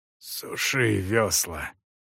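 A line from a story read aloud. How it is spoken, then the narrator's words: Hoarse. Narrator (Russian): прохрипел Эсон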